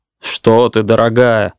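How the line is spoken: Glum protest. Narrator (Russian): уныло запротестовал супруг

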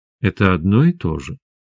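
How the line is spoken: Gentle. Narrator (Russian): мягко сказала Света

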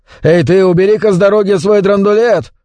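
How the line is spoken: Shouted, then repeated quieter. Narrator (Russian): крикнул, а потом опять повторил уже тише

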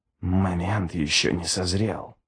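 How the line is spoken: Whisper. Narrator (Russian): прошептал Ничто

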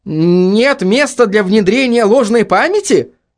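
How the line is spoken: Irritated question. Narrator (Russian): раздраженно спросил Маклейн

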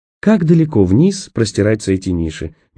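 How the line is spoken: Honeyed sweet question. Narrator (Russian): медовым голосом спросила Роэн

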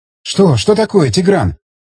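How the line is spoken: Agitated, excited speech. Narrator (Russian): взволнованно заговорила Рита

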